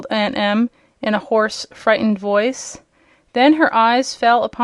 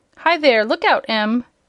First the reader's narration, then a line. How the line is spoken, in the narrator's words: exclaimed the old man